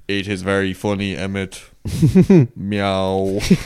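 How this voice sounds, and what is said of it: Drawling, sarcastic cat impression. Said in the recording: “good impression of Tiger. I can't believe you got his voice so good ... drawl and sarcastic he is when he says that. Like classic cat.”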